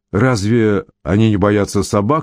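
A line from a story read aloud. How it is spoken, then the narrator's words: Plain. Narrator (Russian): спросил родитель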